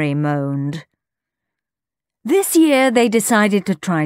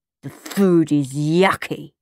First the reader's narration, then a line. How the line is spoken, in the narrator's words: Henry grumbled